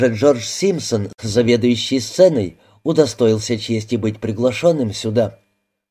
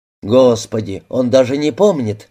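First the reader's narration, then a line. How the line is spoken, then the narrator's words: Sighing. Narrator (Russian): вздохнул Феликс Гарденер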